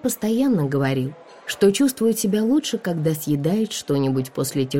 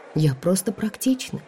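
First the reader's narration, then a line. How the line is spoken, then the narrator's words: Muttered. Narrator (Russian): пробормотала я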